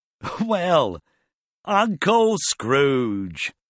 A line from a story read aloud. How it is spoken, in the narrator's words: they cried